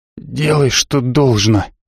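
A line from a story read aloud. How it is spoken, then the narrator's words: Hoarse rasp. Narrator (Russian): Гуутен прохрипел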